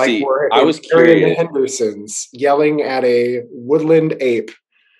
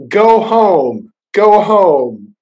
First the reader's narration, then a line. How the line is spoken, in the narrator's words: to yell